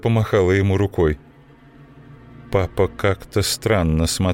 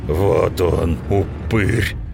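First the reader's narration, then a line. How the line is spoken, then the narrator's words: Strange altered voice. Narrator (Russian): сказал папа чужим голосом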